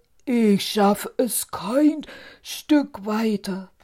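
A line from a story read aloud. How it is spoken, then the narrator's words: Giant calling out. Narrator (German): rief der Riese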